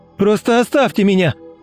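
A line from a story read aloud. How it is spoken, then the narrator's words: Shouted out. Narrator (Russian): выкрикнул Дима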